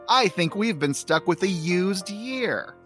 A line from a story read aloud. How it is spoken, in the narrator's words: she shouts